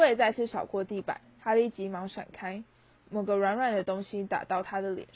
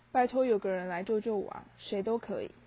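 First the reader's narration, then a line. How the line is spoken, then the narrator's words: Panicked mutter. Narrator (Chinese): 哈利慌乱地喃喃自语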